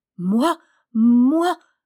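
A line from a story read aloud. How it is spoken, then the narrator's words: Young girl stammering. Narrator (French): balbutia la jeune fille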